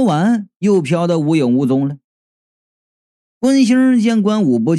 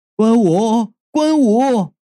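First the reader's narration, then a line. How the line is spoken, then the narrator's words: Calling out. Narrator (Chinese): 他叫了没两声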